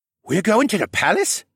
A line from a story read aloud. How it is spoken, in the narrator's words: Vekin gasped